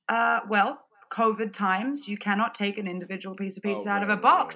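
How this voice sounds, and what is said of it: Harsh-sounding non-American accent. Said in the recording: “my accent doesn't mean I'm not American ... my accent is probably wired to sound a little bit harsher than other people. My accent's is harsh sounding”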